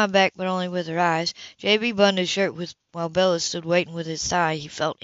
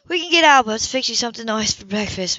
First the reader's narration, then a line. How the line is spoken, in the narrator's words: Bella said brightly